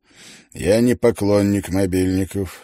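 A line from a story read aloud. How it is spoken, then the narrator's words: Stern. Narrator (Russian): строго произнес Биргер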